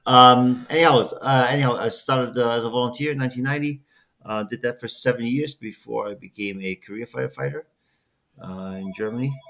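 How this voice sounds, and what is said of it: German accent. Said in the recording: “with a department in Germany. That's the accent.”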